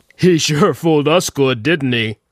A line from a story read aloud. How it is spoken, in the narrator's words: Squonk said, laughing